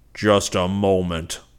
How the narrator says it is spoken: Zircon bellowed

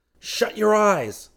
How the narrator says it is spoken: Seaton yelled

